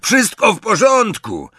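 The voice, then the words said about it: Fairly good imitation, squeaky croaking voice. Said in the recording (Polish): “całkiem nieźle naśladując skrzekliwy głos Glizdogona”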